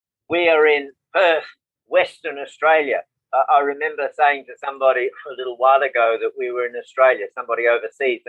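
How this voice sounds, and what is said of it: Australian accent. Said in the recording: “so people can ID that accent”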